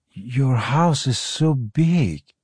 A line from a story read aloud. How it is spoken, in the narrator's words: Parry breathed, eyes rolling wide with wonderment